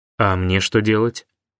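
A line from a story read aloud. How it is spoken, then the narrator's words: Angry question. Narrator (Russian): злобно спросил Антон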